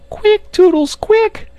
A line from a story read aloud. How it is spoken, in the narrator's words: she screamed